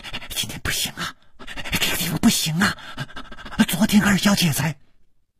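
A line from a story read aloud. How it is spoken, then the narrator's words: Cut off mid-sentence. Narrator (Chinese): 他的嘴还没有说完，就好像被什么东西给堵住了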